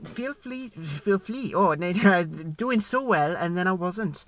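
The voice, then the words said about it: Put-on Welsh accent, improving. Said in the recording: “I've started doing this accent, and every sentence I do, I get a little bit better ... this is my Welsh boo”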